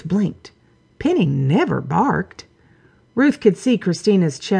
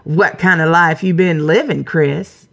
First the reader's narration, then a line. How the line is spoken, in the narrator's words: From the closed-off family room, Lady Penelope barked